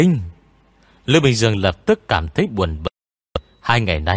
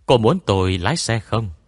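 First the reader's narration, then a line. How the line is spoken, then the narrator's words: Gentle. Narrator (Vietnamese): Lữ Minh Dương nhẹ nhàng nói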